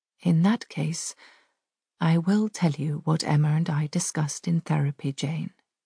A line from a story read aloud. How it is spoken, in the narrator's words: she says quietly